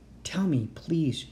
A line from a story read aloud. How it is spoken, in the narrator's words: she whispered